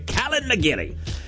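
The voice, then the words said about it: Weak put-on Irish accent. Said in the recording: “Not my best Irish accent,”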